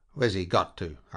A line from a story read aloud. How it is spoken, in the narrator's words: asked the captain sharply